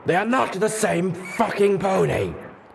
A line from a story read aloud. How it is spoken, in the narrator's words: Steelhooves screamed at Zenith